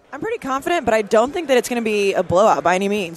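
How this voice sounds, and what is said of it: Tired, exhausted-sounding voice. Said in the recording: “How tired are you? ... I'm exhausted. ... Can you hear it in my voice?”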